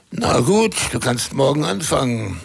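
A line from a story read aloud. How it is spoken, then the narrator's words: Plain. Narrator (German): sagte Gentleman Jack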